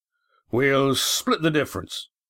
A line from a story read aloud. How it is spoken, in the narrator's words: said Roaring Jack, with an assurance belied by his worried frown